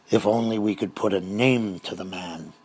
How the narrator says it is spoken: he grumbled

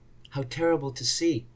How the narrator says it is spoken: I murmured

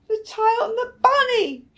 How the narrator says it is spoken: she shouted

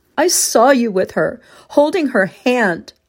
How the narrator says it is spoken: I cried

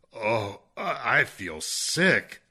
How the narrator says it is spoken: he moaned

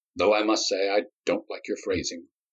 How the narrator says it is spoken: Myron replied in a mournful tone

